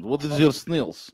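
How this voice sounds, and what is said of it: Put-on Russian accent. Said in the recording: “I'm just doing it in my Russian accent.”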